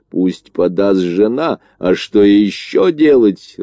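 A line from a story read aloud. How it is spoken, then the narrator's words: Growling. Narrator (Russian): рычал он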